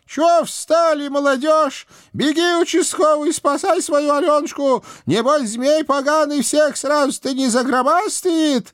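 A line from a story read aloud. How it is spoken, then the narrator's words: Old woman shouting while straining. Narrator (Russian): моя тихая старушка профессионально сунула царевну головой в печь и, удерживая ее, крикнула нам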